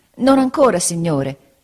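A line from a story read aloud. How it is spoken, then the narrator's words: Exclaimed in pain. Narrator (Italian): esclamai indietreggiando per il dolore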